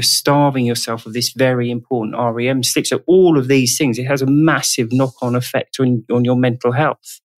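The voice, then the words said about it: British accent. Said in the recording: “That's a British term ... we love your accent.”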